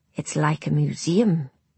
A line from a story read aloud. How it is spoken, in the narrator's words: whispered Robin